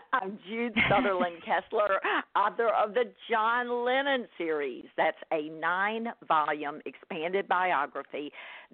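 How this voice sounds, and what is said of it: Southern American accent. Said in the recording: “your daily dose of Southern accent”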